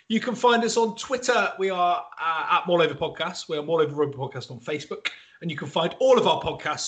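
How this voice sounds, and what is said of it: West Country English accent. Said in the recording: “all with a West Country accent”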